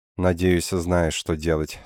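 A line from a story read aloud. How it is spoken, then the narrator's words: Sad. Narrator (Russian): сказала печально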